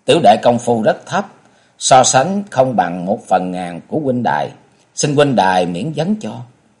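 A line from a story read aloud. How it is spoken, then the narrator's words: Light smiling. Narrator (Vietnamese): Kế Quan nhẹ mỉm cười nói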